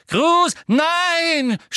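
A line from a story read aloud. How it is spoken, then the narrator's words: Shouting in broken voice. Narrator (German): schrie Hermine mit gebrochener Stimme hinter Millicent Bulstrode hervor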